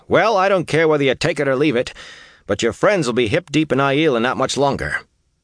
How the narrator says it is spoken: Matt barked

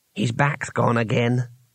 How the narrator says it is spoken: whispered Twoflower

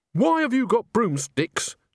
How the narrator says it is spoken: shouted the driver

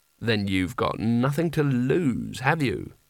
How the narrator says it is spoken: his libido put in an oily tone of thought

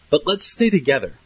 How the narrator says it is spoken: Tance said nervously

